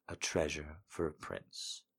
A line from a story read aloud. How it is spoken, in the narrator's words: said earnestly